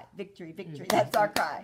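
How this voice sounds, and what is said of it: Cheerleader-style chant. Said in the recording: “you sound like a cheerleader.”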